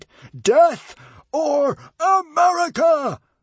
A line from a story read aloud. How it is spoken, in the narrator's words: roared Norbert the Nutjob